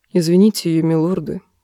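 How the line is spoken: Quiet. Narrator (Russian): тихо промолвил Петир

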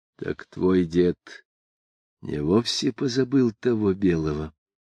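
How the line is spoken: Hoarse. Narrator (Russian): сказал он хрипло

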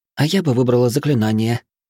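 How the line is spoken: Timid interjection. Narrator (Russian): робко вмешалась Травинка

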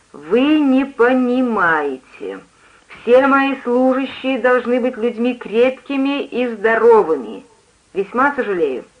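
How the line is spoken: Slow, distinct, restrained. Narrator (Russian): подавил желание прикрикнуть на меня и произнес медленно и внятно

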